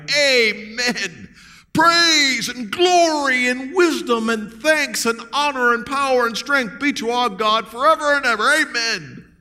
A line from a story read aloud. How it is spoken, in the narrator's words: they cried